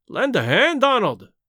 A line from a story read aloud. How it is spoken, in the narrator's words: he cried